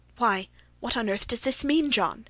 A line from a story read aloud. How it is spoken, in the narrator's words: he stammered